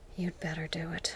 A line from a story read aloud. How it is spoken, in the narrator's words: he replied softly